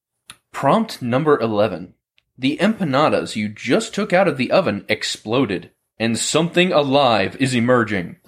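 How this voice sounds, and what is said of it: Dramatic announcer voice. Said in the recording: “the announcer voice. ... I do add a sort of dramatic effect.”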